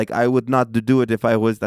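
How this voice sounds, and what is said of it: Put-on Arab accent. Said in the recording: “I don't know why I'm talking in an Arab voice.”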